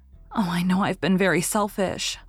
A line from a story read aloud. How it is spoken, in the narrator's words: sighed Anne